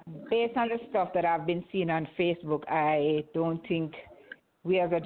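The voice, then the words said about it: Jamaican accent. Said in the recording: “From your accent, I know you're Jamaican.”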